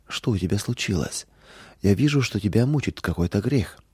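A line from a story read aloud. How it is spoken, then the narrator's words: Gentle question. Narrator (Russian): мама мягко спросила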